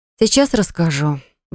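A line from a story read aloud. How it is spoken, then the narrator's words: Sighing. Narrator (Russian): вздохнула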